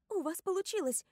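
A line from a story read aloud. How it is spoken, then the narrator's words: Joyful. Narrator (Russian): радостно говорю я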